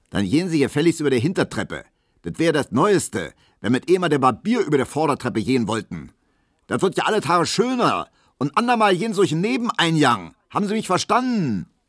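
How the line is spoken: Bellowing after someone. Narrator (German): da brüllte der neue Vizewirt der Piesecke immer noch hinter ihm her

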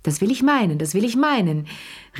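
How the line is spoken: Exclaiming. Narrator (German): rief Madame Pelou

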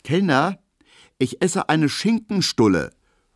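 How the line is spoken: Quick call. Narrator (German): ruft Emil Kubinke schnell

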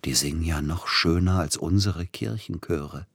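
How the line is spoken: Whisper. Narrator (German): flüsterte Peter Iljitsch Silotti zu

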